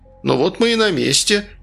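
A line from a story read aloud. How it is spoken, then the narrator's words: Cheerful. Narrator (Russian): весело сказал Сигизмунд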